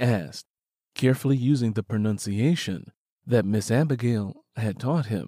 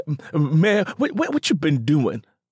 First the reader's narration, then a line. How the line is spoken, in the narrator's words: Black Pete cried